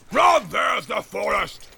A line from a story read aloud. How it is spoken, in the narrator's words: He shouted